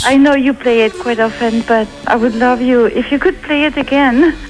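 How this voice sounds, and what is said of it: Slight French accent. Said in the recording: “you have a slight French accent. It's very, very nice ... Very sophisticated”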